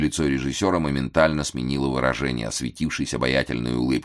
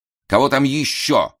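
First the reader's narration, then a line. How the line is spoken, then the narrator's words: Irritated. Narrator (Russian): раздраженно сказал Ной Ноевич, не выносивший, когда во время репетиции или собрания заявлялись посторонние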